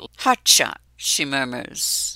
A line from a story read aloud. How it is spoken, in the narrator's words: the word purring between them like a secret